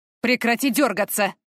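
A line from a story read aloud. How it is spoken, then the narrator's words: Gruff male growl. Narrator (Russian): рыкнул мужчина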